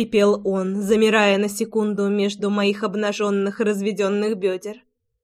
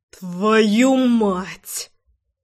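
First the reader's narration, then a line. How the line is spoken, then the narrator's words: Growled through teeth. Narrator (Russian): Прорычал Ромка сквозь зубы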